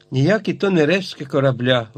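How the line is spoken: Exclaimed. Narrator (Ukrainian): вигукнув Гедеон Спілет

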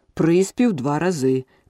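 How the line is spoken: Shout. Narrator (Ukrainian): крикнув грифон

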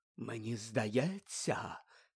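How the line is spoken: Mystical whisper, poorly hidden irritation. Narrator (Ukrainian): прошепотіла вона містично, однак свого очевидного роздратування приховати все-таки не зуміла

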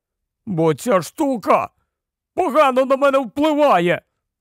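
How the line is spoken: Exclaimed. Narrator (Ukrainian): вигукнув Рон

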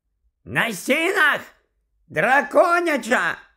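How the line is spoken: Shouting over loud noise. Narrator (Ukrainian): закричав у відповідь Чаклун на ім'я Горацій, бо саме в ту мить з оглушливим скреготом і дзенькотом вгвинчувалася в стелю люстра

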